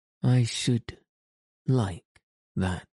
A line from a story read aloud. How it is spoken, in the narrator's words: he said very slowly, his eyes looking dreamy